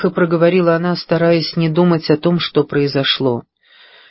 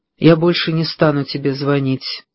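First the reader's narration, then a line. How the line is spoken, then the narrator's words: Lifeless, flat announcement. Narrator (Russian): неживым голосом объявил Джим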